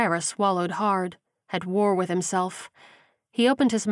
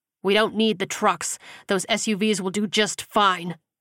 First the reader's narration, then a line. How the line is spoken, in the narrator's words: Gilbert snapped